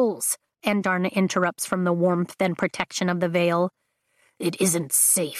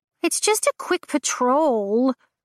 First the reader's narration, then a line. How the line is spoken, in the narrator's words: Andarna whines